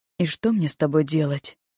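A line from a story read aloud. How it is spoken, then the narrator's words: Calm question. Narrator (Russian): спросил парень спокойно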